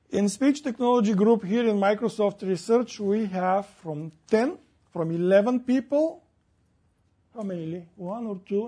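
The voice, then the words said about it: Non-native English accent. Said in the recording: “it works for my accent”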